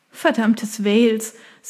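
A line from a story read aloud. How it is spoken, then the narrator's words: Embarrassed laugh. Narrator (German): sagte sie und lachte verlegen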